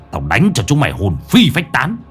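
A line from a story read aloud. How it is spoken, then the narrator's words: Harsh, menacing voice. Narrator (Vietnamese): Lão Năm gằn giọng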